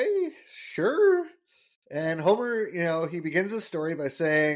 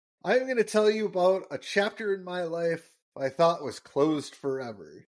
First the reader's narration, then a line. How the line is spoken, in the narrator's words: Homer sighs, and he's like